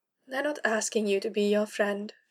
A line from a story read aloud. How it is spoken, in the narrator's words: she informed Kara, far more quietly than she either needed or wanted to